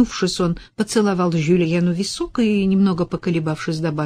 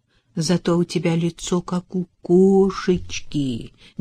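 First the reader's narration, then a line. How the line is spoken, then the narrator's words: Tender. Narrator (Russian): нежно произнес Ронни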